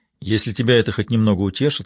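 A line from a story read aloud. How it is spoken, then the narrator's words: Calm reply. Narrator (Russian): спокойно ответил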